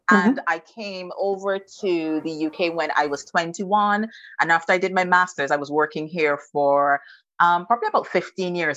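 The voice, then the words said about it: Barbadian (Bajan) accent. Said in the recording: “you can tell from the accent, I'm not from the UK. I am Bajan to the bone. I'm 100% Bajan. So I'm from Barbados.”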